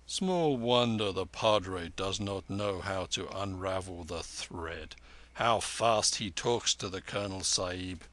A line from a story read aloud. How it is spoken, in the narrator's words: Mahbub Ali chuckled